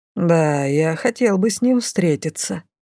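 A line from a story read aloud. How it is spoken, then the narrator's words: Thoughtful old man. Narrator (Russian): задумчиво обронил дедушка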